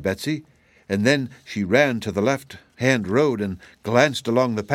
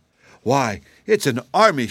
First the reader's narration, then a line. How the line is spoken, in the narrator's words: exclaimed